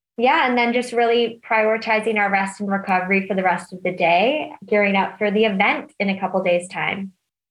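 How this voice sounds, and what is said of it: Not purely British accent. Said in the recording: “you don't have a purely British accent”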